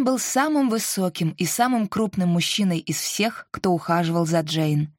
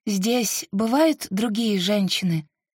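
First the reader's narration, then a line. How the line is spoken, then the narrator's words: Plain. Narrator (Russian): спросила она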